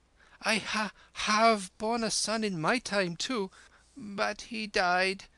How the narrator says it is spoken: whimpered the bowed sister figure behind the chador

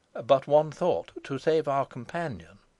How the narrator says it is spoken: said James gravely

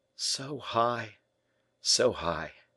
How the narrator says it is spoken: murmured the young man, eagerly

